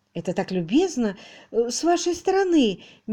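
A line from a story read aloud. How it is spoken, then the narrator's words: Uncertain. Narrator (Russian): неуверенно промолвила мисс Мерчисон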